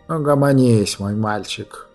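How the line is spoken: Good-natured grumble. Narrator (Russian): добродушно проворчал Смыргол

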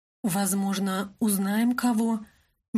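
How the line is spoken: Uncertain. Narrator (Russian): неуверенно ответила я

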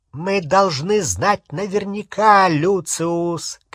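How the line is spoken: Cold, clear shout. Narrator (Russian): крикнула она мужу холодным, ясным голосом

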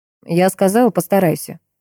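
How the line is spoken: Cold repetition. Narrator (Russian): холодно повторил Бьёрн

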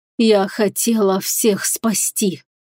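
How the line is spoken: Hoarse rasp. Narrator (Russian): прохрипела бывшая Верховная

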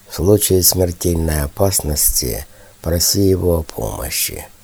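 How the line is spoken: King whispering. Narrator (Russian): шепнул Винаре король

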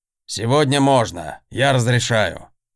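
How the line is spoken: Smirking snort. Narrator (Russian): хмыкнул Раншел Талдакар

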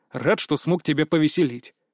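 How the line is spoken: Snorting. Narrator (Russian): фыркнул

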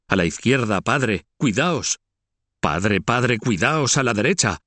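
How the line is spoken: Shouting. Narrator (Spanish): uno de sus hijos, el más joven y el preferido, Felipe, que continúa gritando

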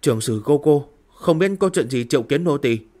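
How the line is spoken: Frightened, trembling. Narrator (Vietnamese): Vị tiên nha kia khuôn mặt khẩn trương sợ hãi, ngữ điệu có vẻ run rẩy nói

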